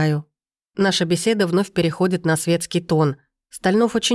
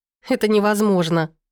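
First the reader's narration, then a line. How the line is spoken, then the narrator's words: Breathless, ringing laughter. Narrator (Russian): выдыхаю, звонко смеясь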